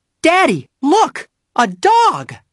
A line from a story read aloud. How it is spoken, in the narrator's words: cried the oldest girl, who was about Henry Huggins' age